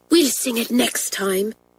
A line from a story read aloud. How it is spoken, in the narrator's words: whispered Pat to Isabel